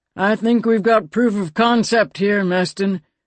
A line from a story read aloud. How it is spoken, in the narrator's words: Captain Julu said grimly